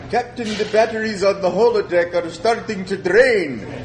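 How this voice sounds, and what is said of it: Scottish-accented character impression. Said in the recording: “worst imitation of Scotty ... A little more Celtic”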